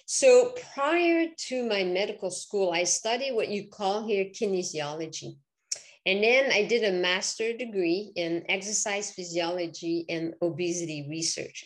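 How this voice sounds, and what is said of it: Quebec French Canadian accent. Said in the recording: “people will recognize my accent. So I'm originally from Quebec.”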